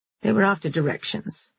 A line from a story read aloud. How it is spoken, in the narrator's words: Harlan lied coolly